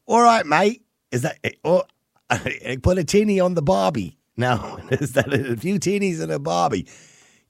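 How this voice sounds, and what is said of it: Bad put-on Australian accent. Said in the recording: “I was told that I have to do this in an Australian accent. ... That's the worst Australian accent ever”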